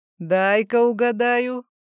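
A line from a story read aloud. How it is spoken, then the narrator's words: Laughing. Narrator (Russian): Мой собеседник рассмеялся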